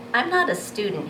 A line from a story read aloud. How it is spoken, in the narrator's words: says